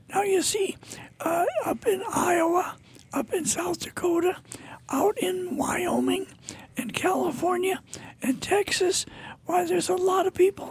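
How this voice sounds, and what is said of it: Squeaky, strained voice. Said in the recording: “my voice is squeaky. I know my voice is squeaky and probably pretty terrible ... I squeak instead of speak”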